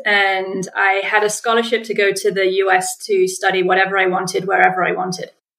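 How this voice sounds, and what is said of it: English accent. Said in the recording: “I'm English, if you can pick up on the accent”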